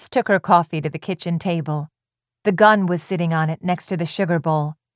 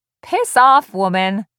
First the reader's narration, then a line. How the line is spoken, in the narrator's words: said, and hung up laughing